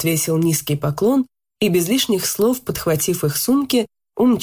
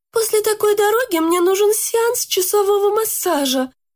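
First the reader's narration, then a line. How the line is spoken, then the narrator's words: Groaning. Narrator (Russian): простонала подруга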